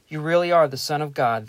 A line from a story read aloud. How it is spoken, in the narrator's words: they exclaimed